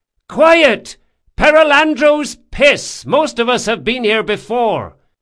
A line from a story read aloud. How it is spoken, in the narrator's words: Lieutenant Delmastro hollered